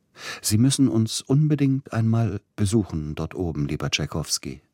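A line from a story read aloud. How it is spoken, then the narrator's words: Plain. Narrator (German): sagte er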